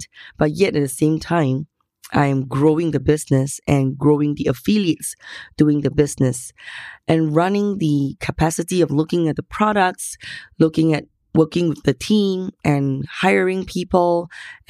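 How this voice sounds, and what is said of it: Hoarse, strained voice. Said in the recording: “As you can hear, I've lost my voice. ... I kind of hurt my voice to a certain extent.”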